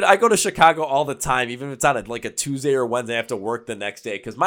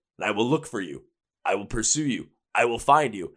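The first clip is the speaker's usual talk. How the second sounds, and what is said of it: Imitates a movie actor's voice. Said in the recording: “my best Liam Neeson impersonation from Taken”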